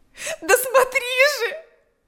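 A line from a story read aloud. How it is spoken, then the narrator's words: Shout. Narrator (Russian): закричала она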